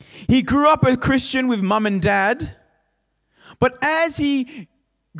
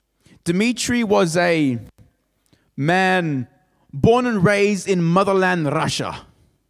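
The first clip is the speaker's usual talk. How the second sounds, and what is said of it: Put-on Russian accent. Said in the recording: “I don't know why I decided to do that accent, but I had to do that accent.”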